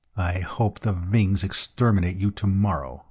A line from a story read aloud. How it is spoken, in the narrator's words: muttered Green